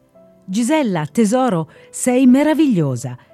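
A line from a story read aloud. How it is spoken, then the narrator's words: Amazed, emotional exclamation. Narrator (Italian): esclama mia madre con stupore ed evidente emozione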